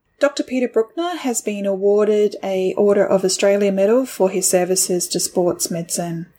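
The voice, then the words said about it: Australian accent. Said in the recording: “you do it in your Aussie accent”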